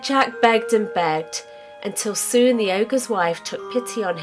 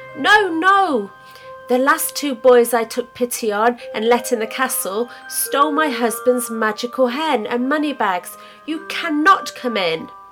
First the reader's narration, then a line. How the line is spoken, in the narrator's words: she cried